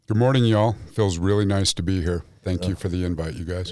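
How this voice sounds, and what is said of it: Radio-style voice. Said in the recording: “you have a radio voice”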